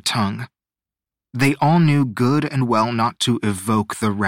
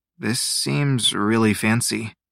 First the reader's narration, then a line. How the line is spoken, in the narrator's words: he murmured